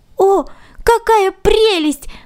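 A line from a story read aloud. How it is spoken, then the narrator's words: Exclaiming. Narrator (Russian): воскликнул Ганс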